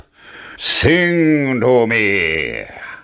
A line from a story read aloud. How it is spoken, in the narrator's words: roared the giant